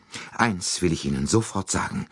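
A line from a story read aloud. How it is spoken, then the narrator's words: Breathless. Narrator (German): begann sie atemlos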